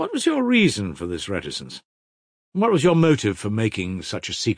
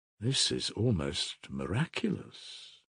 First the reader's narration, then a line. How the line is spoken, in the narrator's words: murmured Nikolai Parfenovitch